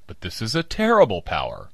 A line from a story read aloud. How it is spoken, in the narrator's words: I cried